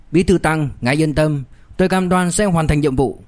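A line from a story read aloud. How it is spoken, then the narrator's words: Loud, quietly pleased. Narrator (Vietnamese): Vương Trung Sơn mừng thầm, lập tức lớn tiếng nói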